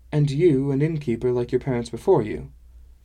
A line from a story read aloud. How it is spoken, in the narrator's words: Kalka sighed